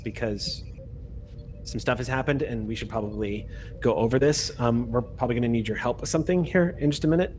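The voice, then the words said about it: Speaks in a lower voice. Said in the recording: “in a lower voice”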